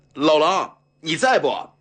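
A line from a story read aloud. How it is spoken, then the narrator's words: Hoarse bellowing. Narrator (Chinese): 扯声扯气地吼道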